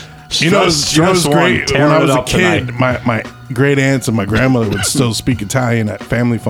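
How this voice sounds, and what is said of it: Usual voice. Nothing is said of it.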